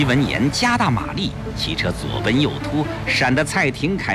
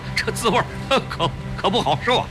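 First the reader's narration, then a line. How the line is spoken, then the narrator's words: Forced laugh. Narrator (Chinese): 胡庆阳勉强笑笑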